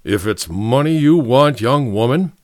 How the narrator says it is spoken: James Ezekiel Patch grumbled

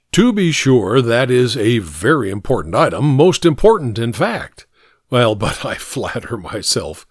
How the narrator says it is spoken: the doctor chuckled softly

